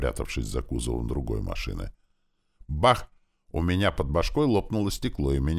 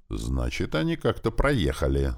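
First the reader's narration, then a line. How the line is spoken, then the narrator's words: Angry reply. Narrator (Russian): зло ответил Клёпа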